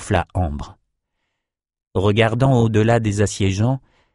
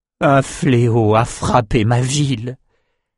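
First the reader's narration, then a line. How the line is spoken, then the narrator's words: Moaning. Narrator (French): gémit Rennes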